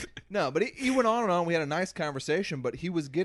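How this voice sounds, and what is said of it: Usual voice. Nothing is said of it.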